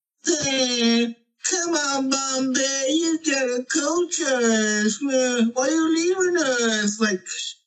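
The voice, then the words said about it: Imitates a movie character's voice. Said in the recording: “the best, like, Charlie Conway impersonation”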